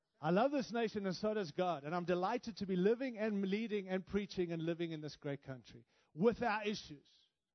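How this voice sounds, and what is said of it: African and Australian-influenced accent. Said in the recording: “My accent is because I was born in Africa, raised in Australia, and now live in the great nation of the United States”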